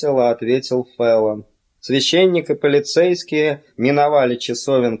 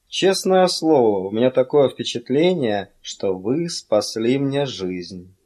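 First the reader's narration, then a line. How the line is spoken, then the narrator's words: Mumbling. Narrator (Russian): Феллон пробормотал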